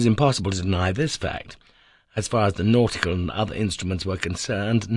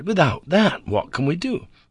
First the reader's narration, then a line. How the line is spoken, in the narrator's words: I cried